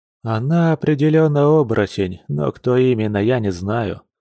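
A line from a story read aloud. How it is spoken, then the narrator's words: Plain. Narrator (Russian): сказал Арсений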